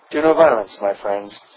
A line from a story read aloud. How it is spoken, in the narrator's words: he said calmly